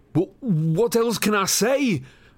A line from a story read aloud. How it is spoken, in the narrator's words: Ron shouted